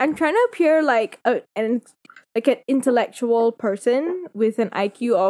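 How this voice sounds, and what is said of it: Usual voice. Nothing is said of it.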